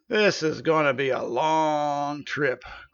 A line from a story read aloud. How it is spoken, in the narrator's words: groaned the centaur